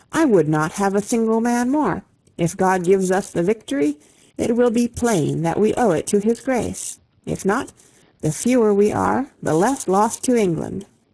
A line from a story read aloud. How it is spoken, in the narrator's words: King Henry exclaimed